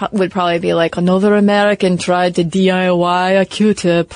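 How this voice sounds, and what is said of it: Put-on Eastern European accent. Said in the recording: “That's my Eastern European... accent. good... good. I was buying it.”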